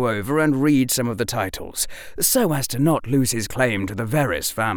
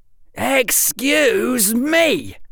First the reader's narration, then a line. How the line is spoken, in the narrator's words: shouted at the top of his lungs